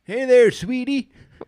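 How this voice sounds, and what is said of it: Imitates an elderly person's voice. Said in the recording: “impersonate an elderly person ... I'm good at it ... Do your voice.”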